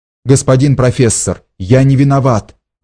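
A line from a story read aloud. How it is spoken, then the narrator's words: Exclaiming. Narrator (Russian): воскликнул Ганс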